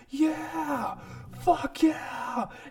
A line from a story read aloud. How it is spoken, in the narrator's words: the Jew who just punched him out is screaming and says